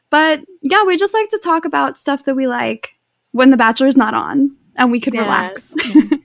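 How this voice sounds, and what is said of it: New York City accent. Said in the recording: “if you can't tell from our accents later on, we're from New York City ... The audience should be a little bit used to the accent.”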